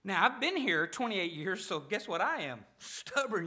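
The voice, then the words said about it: Arkansas Southern American accent. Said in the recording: “you probably have already guessed this from my accent, I'm not from around here. I'm from Arkansas.”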